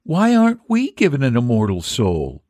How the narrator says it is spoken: the little mermaid sadly asked

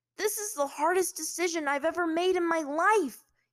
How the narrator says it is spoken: he shouted

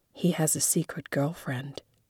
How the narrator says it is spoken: Jordan whispered to me

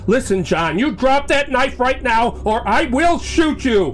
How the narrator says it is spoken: Grimm holds the gun out, grips it tighter, and shouts

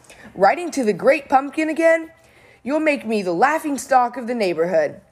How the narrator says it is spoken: Linus's sister, Lucy, cried

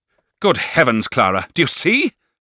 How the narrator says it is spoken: exclaimed Miss Murdstone

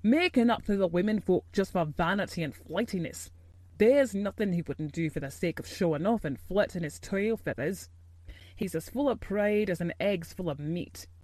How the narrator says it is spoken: snapped Ben Weatherstaff

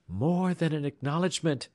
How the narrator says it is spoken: cried the young girl

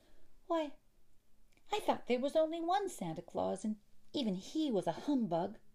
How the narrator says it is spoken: cried Effie, astonished at the sight

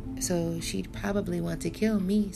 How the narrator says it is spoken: Sunny mumbled

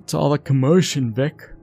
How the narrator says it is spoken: yawned

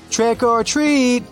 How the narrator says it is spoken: a group of people in scary costumes shouted

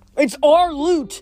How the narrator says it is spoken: he yelled, standing out on his tiptoes so he could get in Clarice's face

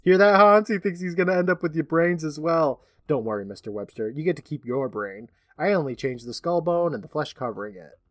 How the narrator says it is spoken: The doctor laughs, saying

